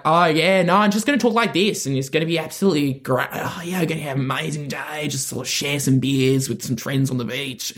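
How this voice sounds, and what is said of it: Put-on Australian accent. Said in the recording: “Australian accent, simultaneously funniest voice you can have by far ... An accent built for comedy”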